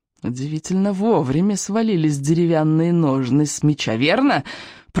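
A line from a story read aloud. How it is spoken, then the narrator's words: Hissing, spluttering. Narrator (Russian): прошипел он, брызжа слюной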